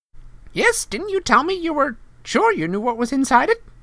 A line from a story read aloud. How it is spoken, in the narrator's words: piped up Professor Flitwick